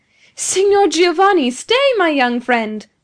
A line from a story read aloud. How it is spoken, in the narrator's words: cried he